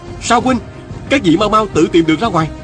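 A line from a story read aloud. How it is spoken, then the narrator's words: Shouting. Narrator (Vietnamese): Viên Thừa Chí la lên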